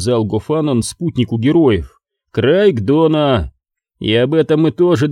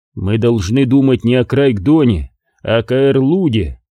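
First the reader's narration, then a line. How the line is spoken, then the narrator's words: Plain. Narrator (Russian): сказал друзьям Корум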